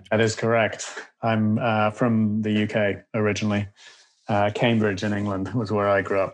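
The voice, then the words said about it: British English accent. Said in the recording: “by the timbre and tone of your voice and accent, you probably were not born and raised in Los Angeles”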